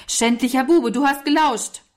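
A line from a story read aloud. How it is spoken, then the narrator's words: Shouting. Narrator (German): rief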